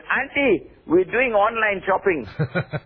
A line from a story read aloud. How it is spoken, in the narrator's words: the boys ran away they shouted